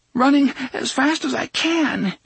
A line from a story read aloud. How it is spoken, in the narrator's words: Jake gasped